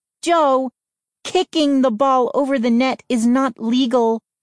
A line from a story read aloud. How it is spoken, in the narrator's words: she whined